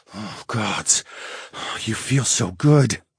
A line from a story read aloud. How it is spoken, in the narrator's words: I murmured